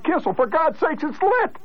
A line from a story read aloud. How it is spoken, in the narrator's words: The crowd hollered